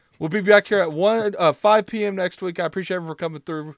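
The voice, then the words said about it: Voice going out, strained. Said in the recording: “My voice is going out”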